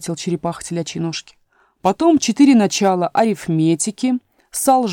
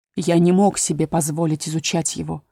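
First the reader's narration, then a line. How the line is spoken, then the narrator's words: Sighing. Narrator (Russian): вздохнул черепаха телячьи ножки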